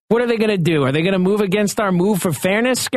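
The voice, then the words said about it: Put-on New York accent. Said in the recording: “you do this like New York accent here on it”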